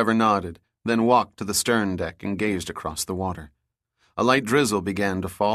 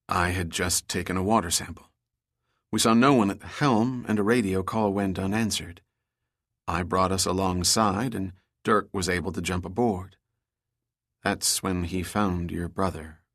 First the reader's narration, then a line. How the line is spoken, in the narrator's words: said, her voice trailing off